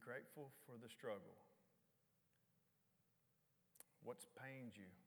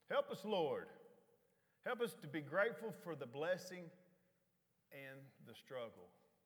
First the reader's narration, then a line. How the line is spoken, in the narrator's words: we've been shouting